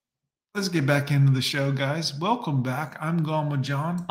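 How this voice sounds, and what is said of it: Usual voice. Nothing is said of it.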